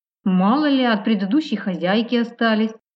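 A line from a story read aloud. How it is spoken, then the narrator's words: Chuckling. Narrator (Russian): хохотнул он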